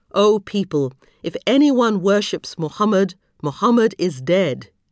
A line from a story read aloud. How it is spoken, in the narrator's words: ended firmly